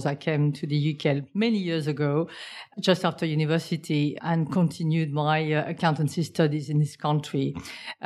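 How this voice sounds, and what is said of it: Foreign, non-British accent. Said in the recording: “you can gather from my accent, I'm not from those shores”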